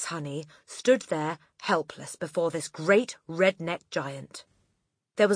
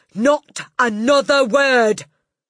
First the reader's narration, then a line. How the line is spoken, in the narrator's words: shouted Miss Trunchbull